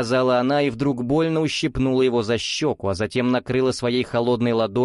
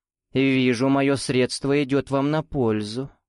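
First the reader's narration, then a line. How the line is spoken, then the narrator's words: Silky, ingratiating. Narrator (Russian): вкрадчиво добавила наставница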